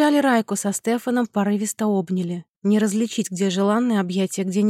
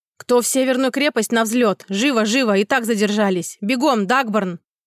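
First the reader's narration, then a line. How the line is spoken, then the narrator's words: Barked shout. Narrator (Russian): гаркнул Имун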